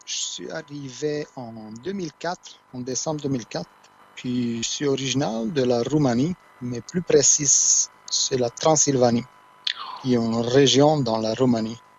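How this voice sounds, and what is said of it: Romanian accent, non-Québécois French. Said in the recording (French): “juste avec ton accent, on se rend compte que t'es pas du Québec”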